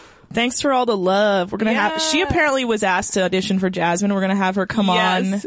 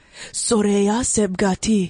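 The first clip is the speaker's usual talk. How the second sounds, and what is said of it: Put-on Persian accent. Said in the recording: “That's my Persian accent.”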